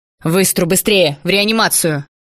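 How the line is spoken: Barked command. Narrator (Russian): рявкнул

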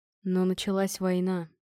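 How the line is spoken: Gloomy addition. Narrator (Russian): мрачно добавил Торг

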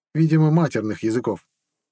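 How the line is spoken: Prince sighing. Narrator (Russian): вздохнул принц

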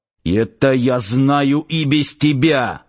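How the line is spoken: Growling. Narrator (Russian): рыкнул начальник гарнизона

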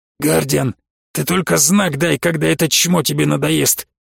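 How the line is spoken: Hoarse voice. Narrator (Russian): хрипло сказал Кандей

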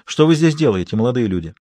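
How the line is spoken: Less aggressive repeated question. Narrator (Russian): он повторил вопрос, правда, уже менее агрессивным тоном

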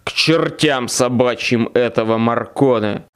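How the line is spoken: Roared. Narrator (Russian): взревел вожак

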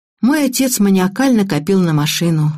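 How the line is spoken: Sighing. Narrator (Russian): вздохнула

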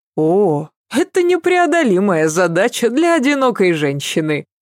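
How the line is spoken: Laughing. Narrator (Russian): засмеялась Ася

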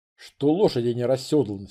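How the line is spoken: Plain. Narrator (Russian): спросил я

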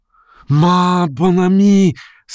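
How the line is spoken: Weak shout. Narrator (Russian): слабо крикнул он ей навстречу

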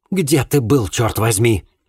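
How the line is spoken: Irritated, agitated. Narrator (Russian): Раздраженно и взволнованно глянул приятель

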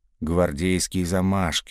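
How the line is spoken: Grumble. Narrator (Russian): буркнул Сивицкий

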